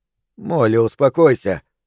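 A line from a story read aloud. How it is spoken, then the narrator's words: Forced calm confidence. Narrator (Russian): Хантер старался, чтобы его голос звучал уверенно и спокойно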